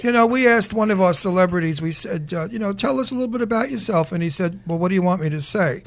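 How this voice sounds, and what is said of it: New York accent. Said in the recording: “Did you hear my accent? ... We're from New York. ... I was from Brooklyn.”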